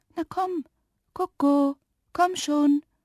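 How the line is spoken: Soft coaxing call. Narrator (German): rief leise und lockend

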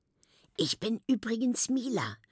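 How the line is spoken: Whisper. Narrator (German): flüstert sie

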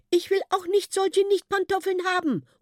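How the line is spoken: Calling out. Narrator (German): ruft ein Luttgi

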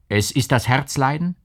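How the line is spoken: Calling out again. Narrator (German): rief der Onkel wieder

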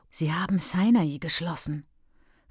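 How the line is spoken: Whispered. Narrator (German): flüsterte Ben Hilda

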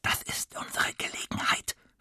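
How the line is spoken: Whispered. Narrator (German): flüstert Tim

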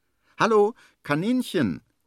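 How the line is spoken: Calling out. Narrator (German): ruft er

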